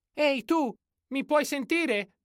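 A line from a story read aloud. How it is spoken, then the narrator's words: Shouting at full voice. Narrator (Italian): gridò con tutta la voce che aveva in corpo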